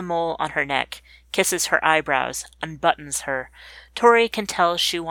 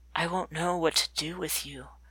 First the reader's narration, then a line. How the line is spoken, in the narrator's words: Tori whispers